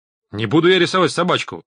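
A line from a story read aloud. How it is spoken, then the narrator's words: Barked refusal. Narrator (Russian): рявкнул Рид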